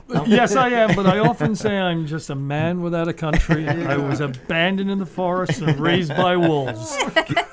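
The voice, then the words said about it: British accent. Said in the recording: “An American with a British accent.”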